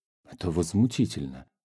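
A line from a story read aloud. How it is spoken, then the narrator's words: Agitated muttering. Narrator (Russian): бормотал он в волнении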